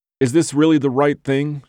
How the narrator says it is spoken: blurted

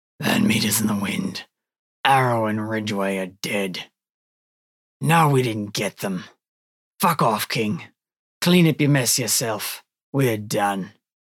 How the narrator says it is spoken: growls gruffly

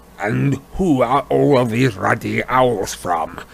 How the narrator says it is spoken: He growled

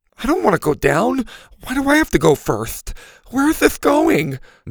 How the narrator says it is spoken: Mac groaned

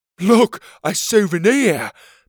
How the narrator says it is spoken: Petey shouted

